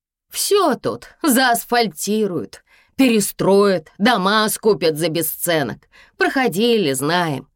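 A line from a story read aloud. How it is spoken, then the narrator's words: Loud, theatrical mother. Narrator (Russian): мама говорила теперь громко, как на сцене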